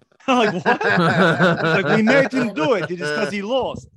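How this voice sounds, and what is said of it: Usual voice. Nothing is said of it.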